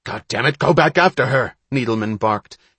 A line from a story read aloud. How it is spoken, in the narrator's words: his electronic voice rasping across the water